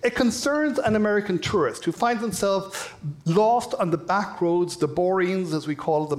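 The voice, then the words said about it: Irish accent. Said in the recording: “You may have been able to tell from my accent, I'm from Ireland.”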